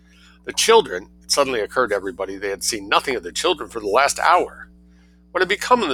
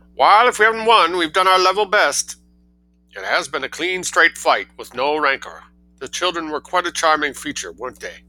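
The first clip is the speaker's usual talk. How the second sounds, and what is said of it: Put-on New England accent. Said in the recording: “I gave that a sort of New England accent.”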